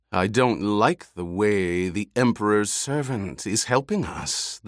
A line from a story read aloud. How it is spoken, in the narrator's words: the Baron muttered